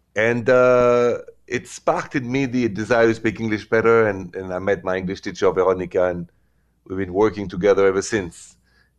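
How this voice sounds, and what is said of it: Heavy French accent. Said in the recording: “heavy French accent”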